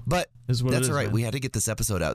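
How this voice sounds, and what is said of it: Sick, impaired voice. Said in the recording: “I want to apologize right off the bat for my voice... I have been, like, very ill... Whenever I get sick, my voice is the first thing to go... your voice does stink”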